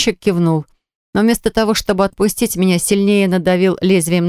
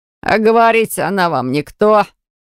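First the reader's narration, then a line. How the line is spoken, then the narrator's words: Smirking grunt. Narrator (Russian): хмыкнул погонщик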